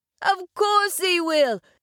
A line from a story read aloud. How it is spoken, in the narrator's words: chuckled the otter